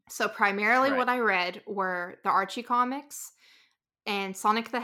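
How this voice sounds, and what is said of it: Rural American accent. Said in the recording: “I grew up in a very rural area. I don't know if you can tell from the accent”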